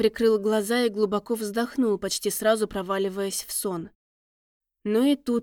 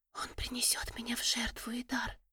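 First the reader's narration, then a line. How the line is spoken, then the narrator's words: Tearful whisper. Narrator (Russian): прошептала леди Тирис, и крупная слеза сбежала по ее щеке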